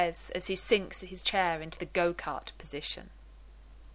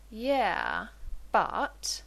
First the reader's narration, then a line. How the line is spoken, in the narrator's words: John drawls